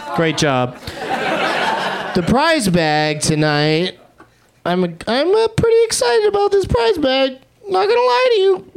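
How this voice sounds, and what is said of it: High-pitched imitation of another person's voice. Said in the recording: “doing a Charlie Day impression? ... Why is my voice getting so high?”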